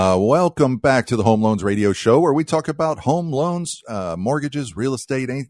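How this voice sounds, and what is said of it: Usual voice. Nothing is said of it.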